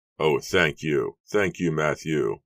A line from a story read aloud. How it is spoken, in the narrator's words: William cried joyfully